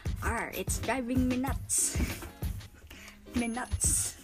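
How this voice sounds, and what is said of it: Attempted pirate accent. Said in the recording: “Medyo hindi ko lang makuha yung ano eh, yung proper pirate accent.”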